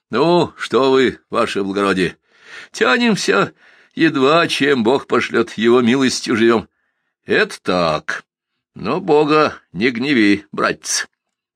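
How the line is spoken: Mock threatening. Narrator (Russian): погрозил притворно Сумароков

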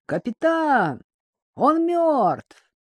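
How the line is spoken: Sailor shouting, hidden disgust. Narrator (Russian): прокричал матрос, и в голосе его при этом прозвучало скрытое отвращение

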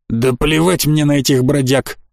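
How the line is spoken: Leader's growl. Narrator (Russian): рыкнул главарь

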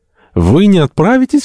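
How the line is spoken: Desperate exclamation. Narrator (Russian): воскликнул доктор, отчаянно

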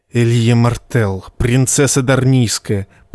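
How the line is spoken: Serpent's hiss. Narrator (Russian): прошипел красный змей

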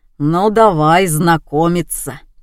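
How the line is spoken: Low booming voice. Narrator (Russian): прогудел браток

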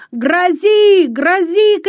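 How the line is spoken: Breathless shout. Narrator (Russian): крикнул он, с трудом переводя дух

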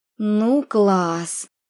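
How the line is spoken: Reproachful exhale. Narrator (Russian): выдохнула она с упреком

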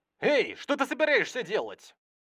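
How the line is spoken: Irritated exclamation. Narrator (Russian): Кто-то раздраженно воскликнул

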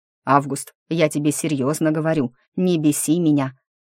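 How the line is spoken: Growled reply. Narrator (Russian): прорычал в ответ

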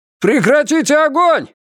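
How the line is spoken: Shout. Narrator (Russian): крикнул Феннер

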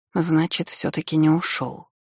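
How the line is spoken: Resigned mutter. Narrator (Russian): пробормотала я обреченно

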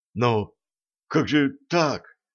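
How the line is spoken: Confused young man mumbling. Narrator (Russian): растерянно забормотал парень

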